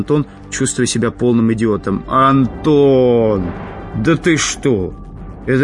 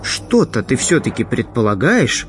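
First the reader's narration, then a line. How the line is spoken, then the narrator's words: Muttered. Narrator (Russian): пробормотал Антон, помолчал секунду, а потом спросил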